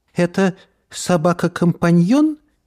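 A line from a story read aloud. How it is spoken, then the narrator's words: Uncertain question. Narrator (Russian): неуверенно спросила Мод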